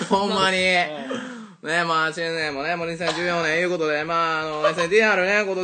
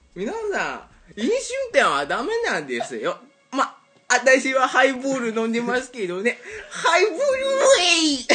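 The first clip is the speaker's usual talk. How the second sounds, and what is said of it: Imitates another person's voice. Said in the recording (Japanese): “吉高由里子の真似をする福田彩乃のモノマネ”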